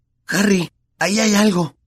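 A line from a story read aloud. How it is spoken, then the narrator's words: Hoarse voice. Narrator (Spanish): dijo Ron con la voz ronca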